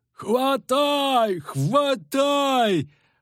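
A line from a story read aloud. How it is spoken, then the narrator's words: Yelling, joined by others. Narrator (Russian): вопил поваленный старшой, тут же поддержанный товарищами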